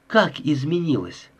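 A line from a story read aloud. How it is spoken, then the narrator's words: Calm question. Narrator (Russian): спокойным тоном спросила Холли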